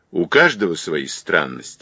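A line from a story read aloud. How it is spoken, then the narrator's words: Dry. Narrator (Russian): сухо ответил Зайцев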